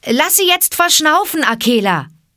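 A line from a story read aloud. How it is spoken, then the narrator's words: Called out. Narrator (German): rief Mowgli dem Wolfe zu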